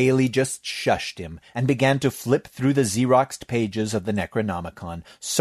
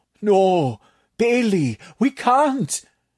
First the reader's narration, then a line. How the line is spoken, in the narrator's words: Tatak moaned